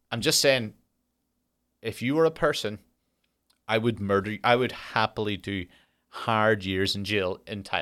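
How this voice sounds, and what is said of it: Speaks with a noticeable accent. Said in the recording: “That could be easily misconstrued with my accent.”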